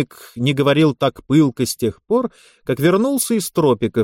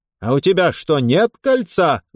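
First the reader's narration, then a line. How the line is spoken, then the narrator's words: Very loud shout. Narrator (Russian): закричал, не слыша его, полковник, и так громко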